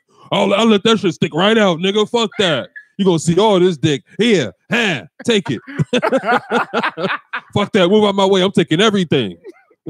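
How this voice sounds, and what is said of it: Imitates another person's voice. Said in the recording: “I did a perfect impression of him”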